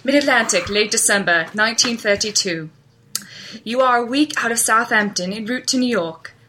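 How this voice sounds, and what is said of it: Attempted British accent. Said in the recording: “Should I try my British accent? ... This is gonna be awful, so get ready.”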